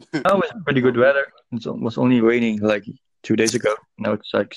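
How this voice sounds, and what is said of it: Dutch English accent. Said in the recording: “it's like a Dutch English accent”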